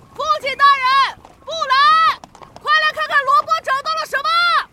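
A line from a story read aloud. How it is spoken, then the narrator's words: Loud shout from hilltop. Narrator (Chinese): 琼恩 挥手朝下大喊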